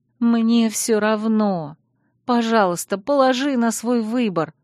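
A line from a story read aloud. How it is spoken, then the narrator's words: Moan. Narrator (Russian): простонала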